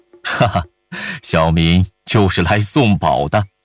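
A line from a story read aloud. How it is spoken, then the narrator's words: Laughing. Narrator (Chinese): 范蠡哈哈一笑道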